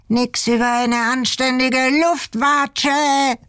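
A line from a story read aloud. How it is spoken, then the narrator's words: Overexcited shout. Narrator (German): schrie Ingi überdreht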